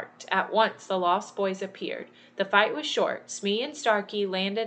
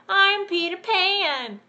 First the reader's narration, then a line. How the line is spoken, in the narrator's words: he shouted